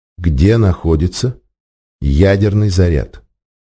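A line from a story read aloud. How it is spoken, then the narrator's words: Muffled sinister gas-mask voice. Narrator (Russian): Искаженный мембранами противогаза голос звучал глухо и зловеще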